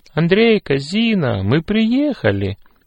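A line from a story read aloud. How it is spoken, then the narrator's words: Joyful, mother. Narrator (Russian): радостно сказала мама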